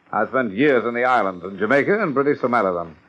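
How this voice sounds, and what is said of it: British accent. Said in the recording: “With a British accent?”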